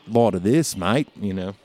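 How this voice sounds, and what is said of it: Put-on nasal Australian accent. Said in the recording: “Australian, I think I'm pretty good at ... It's kind of more of a stuffed nose kind of thing with the Australian accent ... You do really well.”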